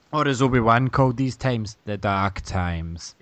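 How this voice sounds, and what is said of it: Poor Alec Guinness impression as Obi-Wan. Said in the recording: “terrible Alec McGuinness impression”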